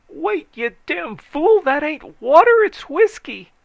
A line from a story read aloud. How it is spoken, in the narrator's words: someone else shrieked